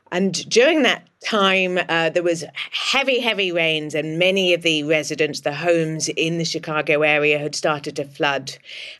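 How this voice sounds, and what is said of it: English accent. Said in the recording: “As you can probably hear from my accent, I'm English”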